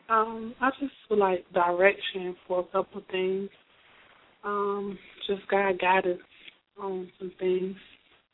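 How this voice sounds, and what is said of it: Slightly hoarse voice. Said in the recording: “I'm a little hoarse”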